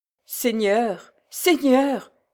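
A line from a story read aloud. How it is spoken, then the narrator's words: Stammered. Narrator (French): balbutia Nathan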